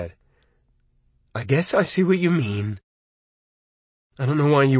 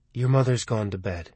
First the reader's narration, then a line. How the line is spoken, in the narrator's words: Michael said quietly